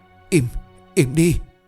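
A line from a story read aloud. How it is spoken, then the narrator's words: Hysterical screaming and crying. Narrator (Vietnamese): Giọng của bà lại tiếp tục hét lên, vừa hét gào vừa khóc như một người điên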